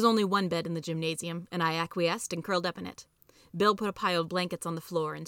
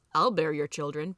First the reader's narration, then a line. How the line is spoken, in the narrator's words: Bill said